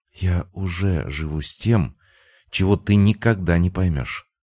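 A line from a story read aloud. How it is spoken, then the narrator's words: Quiet. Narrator (Russian): сказала она тихо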